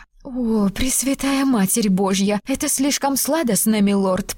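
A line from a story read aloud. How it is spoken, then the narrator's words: Moaning. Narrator (Russian): простонала она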